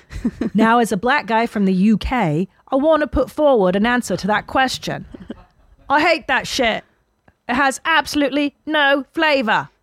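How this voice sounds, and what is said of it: Put-on British accent. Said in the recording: “Did you like my accent? ... Yeah, it was really good.”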